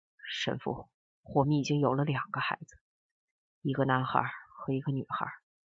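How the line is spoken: Low hoarse voice. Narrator (Chinese): 汪世杰的声音低哑了

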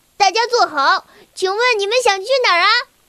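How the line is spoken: Joking. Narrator (Chinese): 小薇开着玩笑

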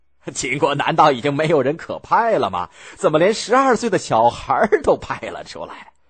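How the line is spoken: Calm, composed. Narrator (Chinese): 甘罗镇定自若的说

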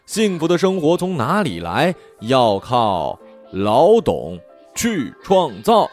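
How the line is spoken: Children singing loudly together. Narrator (Chinese): 所有小朋友一起大声唱

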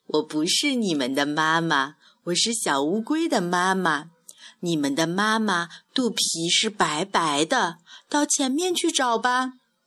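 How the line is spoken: Laughing. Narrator (Chinese): 大乌龟笑着说

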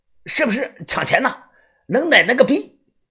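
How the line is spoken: Angry. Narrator (Chinese): 这个黄脸汉子一脸怒声的说道

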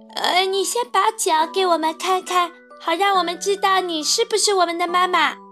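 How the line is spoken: Young goats calling. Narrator (Chinese): 小山羊们叫道

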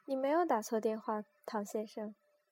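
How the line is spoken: Soft laugh. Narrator (Chinese): 他轻声一笑

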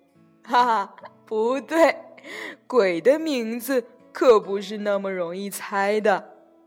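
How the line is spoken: Smug, gleeful laugh. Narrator (Chinese): 鬼一听很高兴，得意洋洋的笑着说

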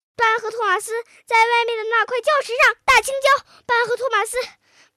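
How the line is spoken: Loud shouting. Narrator (Chinese): 莎莎冲着爸爸大声喊着

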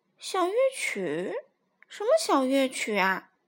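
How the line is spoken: Sighing. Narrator (Chinese): 艾希叹息道

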